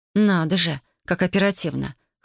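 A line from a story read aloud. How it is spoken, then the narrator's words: Wry grunt. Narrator (Russian): хмыкнула я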